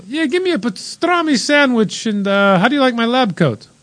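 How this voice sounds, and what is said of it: Exaggerated put-on foreign accent. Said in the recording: “I loved your Italian accent, though. ... I don't know what accent that was. It sounded Scandinavian.”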